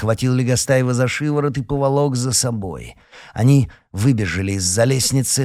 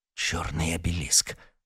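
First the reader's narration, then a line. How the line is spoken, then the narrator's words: Breathed out. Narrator (Russian): выдохнул Гордей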